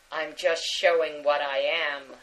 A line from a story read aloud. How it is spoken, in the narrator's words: Spock growled